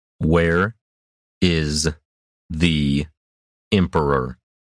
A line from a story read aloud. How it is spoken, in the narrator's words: Roshan spoke slowly and clearly, lest there be the slightest misunderstanding